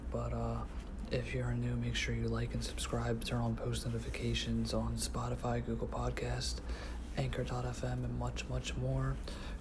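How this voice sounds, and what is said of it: Whispering. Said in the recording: “Right now I am whispering”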